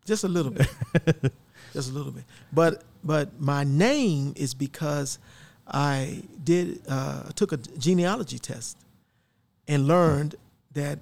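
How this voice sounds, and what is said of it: Southern US drawl. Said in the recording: “I could tell there's some type of Southern. ... Southern drawl there.”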